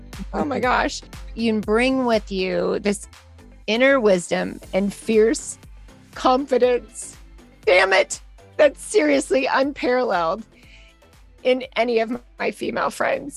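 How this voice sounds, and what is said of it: Teary, emotional voice. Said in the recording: “I'm already getting teary-eyed.”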